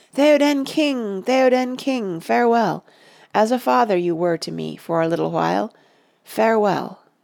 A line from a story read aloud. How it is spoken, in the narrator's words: Merry ... he wept ... cried